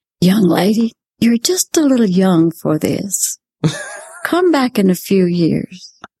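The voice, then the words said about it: Very soft voice quoting Liberace. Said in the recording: “he said, in a very soft voice,”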